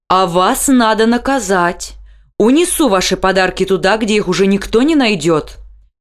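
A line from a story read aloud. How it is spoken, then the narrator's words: Loud. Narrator (Russian): громко сказал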